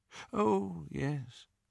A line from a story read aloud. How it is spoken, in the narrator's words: said Dumbledore faintly